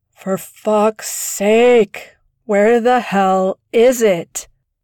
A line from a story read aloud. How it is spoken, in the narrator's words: Agent Wang sighed